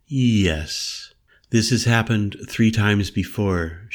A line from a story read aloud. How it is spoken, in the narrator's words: told me evenly in her gracefully accented tones